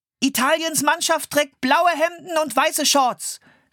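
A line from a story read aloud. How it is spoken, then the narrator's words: Boy calling out. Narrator (German): rief der Junge mit dem Fernglas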